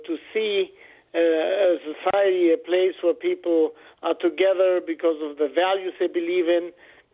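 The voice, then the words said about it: Latino accent with German influence. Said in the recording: “a funny accent, you know, who is a Latino with a German background”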